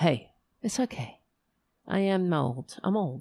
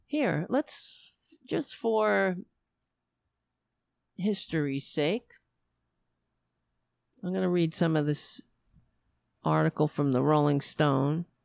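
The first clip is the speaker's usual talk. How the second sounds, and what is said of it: Voice sounding like an old lady. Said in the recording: “I sounded like an old lady there, right?”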